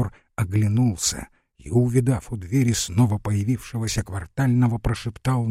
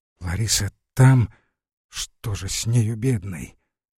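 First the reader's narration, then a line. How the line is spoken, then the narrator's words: Through gritted teeth. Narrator (Russian): Форов процедил сквозь зубы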